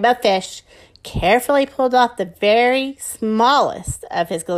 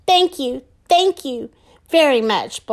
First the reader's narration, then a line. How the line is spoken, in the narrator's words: blurted the little blue fish excitedly